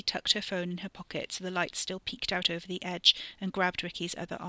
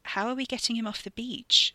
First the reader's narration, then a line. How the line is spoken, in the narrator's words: she asked